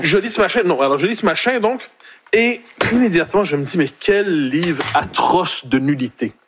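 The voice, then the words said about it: Québécois French accent. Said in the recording (French): “Il a même retrouvé son accent québécois tellement c'était pas bon.”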